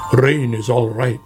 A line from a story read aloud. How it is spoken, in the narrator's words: grumbled Badger